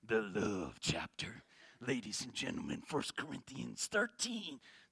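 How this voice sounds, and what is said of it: Mock sexy radio announcer voice. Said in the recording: “put on my sexy radio voice for you ... That's not a very good radio voice”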